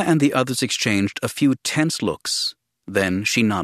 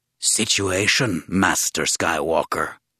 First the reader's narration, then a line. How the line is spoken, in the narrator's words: Tessar rasped